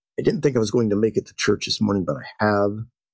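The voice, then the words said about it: Rough, hoarse voice. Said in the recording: “My voice is a bit rough. I was under the weather this past week.”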